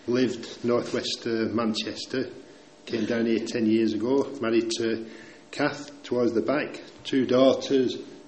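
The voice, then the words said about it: Northern English accent. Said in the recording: “I'm a northerner... I'm just trying to get the Burwell accent now, but I think 10 years in, I'm stuck with it”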